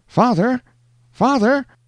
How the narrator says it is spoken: exclaimed a piercing cry from out of the mist

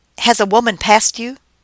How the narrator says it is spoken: I asked excitedly in the best Russian I could muster

